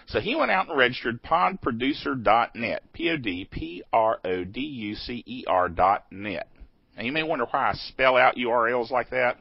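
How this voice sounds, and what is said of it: Accent that is hard to understand. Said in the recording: “it's sometimes hard to understand my accent.”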